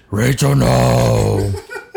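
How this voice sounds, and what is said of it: Gravelly Batman impression voice. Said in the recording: “my best Batman impression... I do not have throat cancer”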